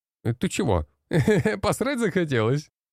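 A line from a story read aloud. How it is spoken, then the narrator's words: Laughing. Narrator (Russian): Рассмеялся Илья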